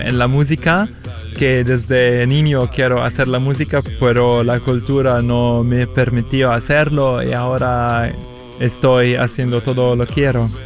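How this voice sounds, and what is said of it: Spanish with an Italian accent. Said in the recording (Spanish): “el acento italiano es muy difícil para quitarlo”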